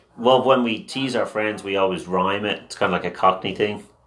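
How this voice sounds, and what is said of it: Speaks with a non-American accent. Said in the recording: “So when do you think the accent will disappear?”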